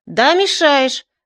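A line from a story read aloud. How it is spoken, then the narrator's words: Shouting into ear. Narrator (Russian): закричал я ему в ухо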